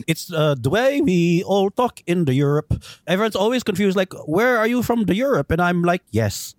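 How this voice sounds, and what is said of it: Broad put-on European accent. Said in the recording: “your broadly European friend ... your broad accent”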